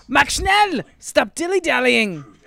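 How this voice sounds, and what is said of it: Put-on accent voicing a scolding mother. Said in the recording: “She didn't have that accent. I'm doing that for effect.”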